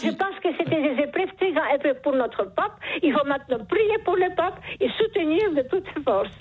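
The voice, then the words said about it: Charming noticeable accent. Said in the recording (French): “Vous avez un charmant accent ... ce joli accent”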